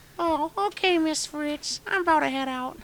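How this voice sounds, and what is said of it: Cartoon character voice. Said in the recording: “Do the Carl voice.”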